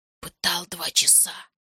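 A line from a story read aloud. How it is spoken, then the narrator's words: Whispered report. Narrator (Russian): сообщил Феликс шепотом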